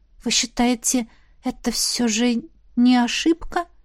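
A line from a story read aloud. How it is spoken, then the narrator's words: Timid question. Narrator (Russian): робко уточнила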